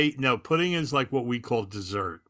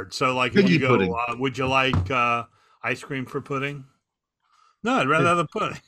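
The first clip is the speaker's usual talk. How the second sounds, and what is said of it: Put-on English-style accent. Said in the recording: “Stop with the stupid accent”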